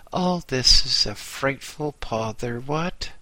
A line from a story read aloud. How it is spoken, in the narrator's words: sighed noisily